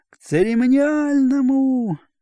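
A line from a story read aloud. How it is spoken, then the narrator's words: Timid, breaking off. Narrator (Russian): робко оборвался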